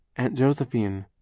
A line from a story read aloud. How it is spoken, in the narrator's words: Klaus said hesitantly